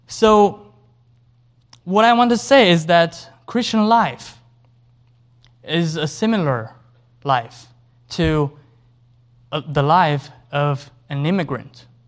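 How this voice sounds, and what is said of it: Non-native English accent. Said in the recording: “like my accent, I'm not an American citizen, by the way, that they're not born here”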